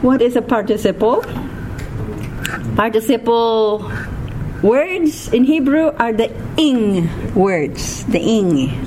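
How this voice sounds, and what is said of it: Filipino-accented English. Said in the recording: “I still have that Filipino twang accent”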